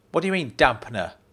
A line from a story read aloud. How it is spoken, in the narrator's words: She snapped